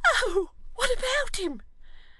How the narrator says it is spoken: cried Miggs

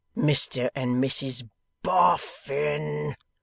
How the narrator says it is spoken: returned the young man, rising into a roar

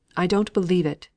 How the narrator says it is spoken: he exclaimed

